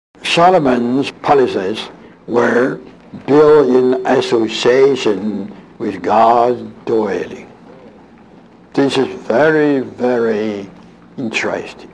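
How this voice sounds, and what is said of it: Weak, elderly voice. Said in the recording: “He was almost 90 years old ... His voice is a little bit weaker than normal”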